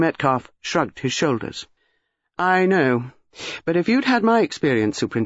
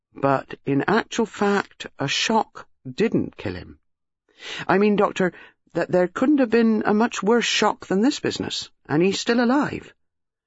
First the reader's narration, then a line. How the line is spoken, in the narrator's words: Superintendent Harper said slowly